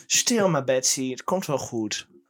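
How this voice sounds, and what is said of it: Odd Flemish-sounding Twents farmer accent. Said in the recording (Dutch): “Het is een raar Vlaams accent... Het is een Twents.”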